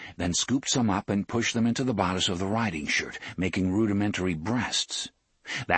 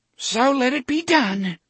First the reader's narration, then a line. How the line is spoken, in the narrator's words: Cordelia cried